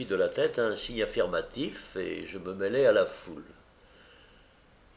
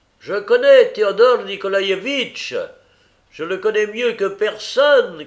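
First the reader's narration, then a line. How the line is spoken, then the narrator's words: Shouting. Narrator (French): criait-il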